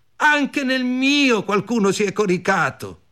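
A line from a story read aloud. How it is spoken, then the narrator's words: Shout. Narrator (Italian): gridarono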